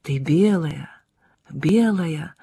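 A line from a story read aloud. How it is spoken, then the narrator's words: Muttering in Italian. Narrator (Russian): бормотал по-итальянски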